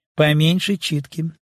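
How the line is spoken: Weighty, calm, commanding. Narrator (Russian): говорил он веско, спокойно и так властно

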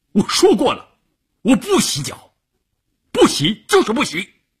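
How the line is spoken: Angry shout. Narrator (Chinese): 关山林瞪着眼睛冲乌云大喊

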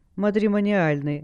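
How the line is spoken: Burst of laughter. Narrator (Russian): расхохоталась Алекс

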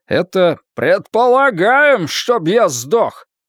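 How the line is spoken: Shouted from audience. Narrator (Russian): прокричал Тед Фрэмптон из 3-го ряда

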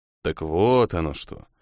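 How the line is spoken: Muttered. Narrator (Russian): пробормотал преподаватель

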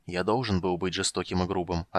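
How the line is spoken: Almost gentle reply. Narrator (Russian): ответил он почти мягко

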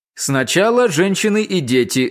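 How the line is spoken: Shouted. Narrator (Russian): закричал англичанин

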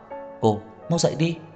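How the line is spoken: Frightened trembling voice. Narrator (Vietnamese): Anh hoảng sợ run rẩy nói

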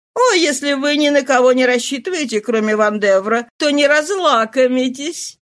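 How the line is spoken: Laughing remark. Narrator (Russian): смеясь заметила графиня

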